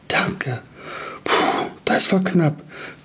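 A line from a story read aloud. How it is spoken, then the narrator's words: Panting. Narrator (German): keuchte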